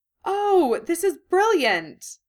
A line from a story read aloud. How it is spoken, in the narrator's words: Hermione said excitedly